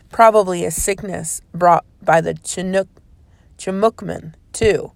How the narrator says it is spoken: she growled

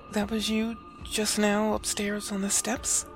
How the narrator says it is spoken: Her voice trembled

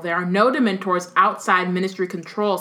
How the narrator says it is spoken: snapped Fudge, who had turned brick red

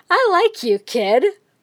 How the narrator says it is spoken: Muscular laughed

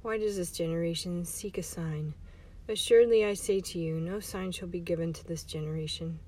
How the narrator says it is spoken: he sighed deeply in his spirit, and he said

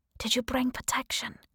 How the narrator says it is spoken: She whispered in my ear

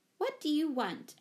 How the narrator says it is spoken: asked Mother sharply

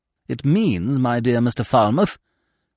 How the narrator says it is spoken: replied Sir Philip testily

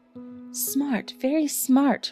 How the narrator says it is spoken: murmured Sherlock Holmes

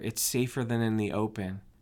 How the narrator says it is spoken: she answered very quietly

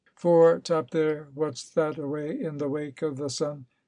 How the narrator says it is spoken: called out Mr

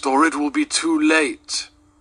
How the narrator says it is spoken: cried the ghost

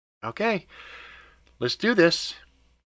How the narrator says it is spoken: Shane said with a heavy sigh

